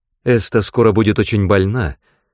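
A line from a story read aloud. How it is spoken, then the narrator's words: Abrupt, awkward mother. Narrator (Russian): сказала мать отрывисто, с чувством неловкости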